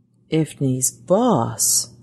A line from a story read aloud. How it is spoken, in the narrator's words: he murmured aloud, amazed at what the great machine seemed to be offering